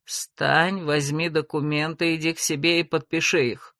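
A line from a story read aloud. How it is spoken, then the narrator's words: Through gritted teeth, father. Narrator (Russian): процедил папа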